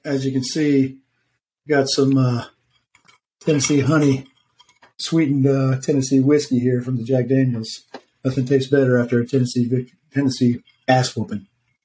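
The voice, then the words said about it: Hoarse, partly lost voice. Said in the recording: “Both of y'all's voices sound a little like you're still fighting recuperation ... my voice is still a little bit gone”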